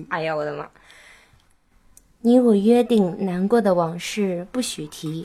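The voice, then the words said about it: Coy, cutesy sweet-talking voice. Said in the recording (Chinese): “就你带着你刚刚发嗲的声音 ... 我觉得还不够嗲，你可以先用嗲的声音说一下 ... 非常棒，就用这个感觉唱”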